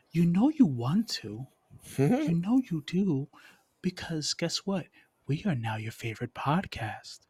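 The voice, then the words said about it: Creepy voice. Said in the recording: “I'm using this creepy voice”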